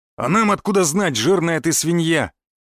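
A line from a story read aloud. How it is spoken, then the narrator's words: Hateful bark. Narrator (Russian): рявкнул лысый амбал, с ненавистью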